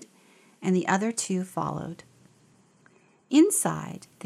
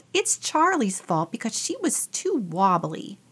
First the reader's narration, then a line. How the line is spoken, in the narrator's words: Theo yelled